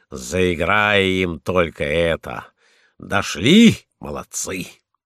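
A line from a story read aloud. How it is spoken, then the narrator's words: Pleased old man. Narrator (Russian): старый волк Штейнмец говорит довольным голосом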